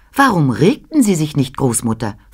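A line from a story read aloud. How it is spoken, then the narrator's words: Plain. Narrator (German): fragte ich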